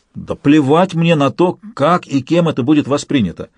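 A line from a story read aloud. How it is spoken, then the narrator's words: Exclaimed. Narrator (Russian): воскликнул Алексей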